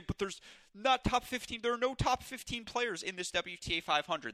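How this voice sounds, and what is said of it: Mocking voice. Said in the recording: “I don't know why I did the mocking voice”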